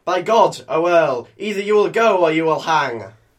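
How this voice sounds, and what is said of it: Yorkshire accent. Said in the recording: “who has spookily acquired a Yorkshire accent”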